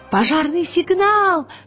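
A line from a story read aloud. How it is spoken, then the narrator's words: Shout. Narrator (Russian): крикнул Пантелеймон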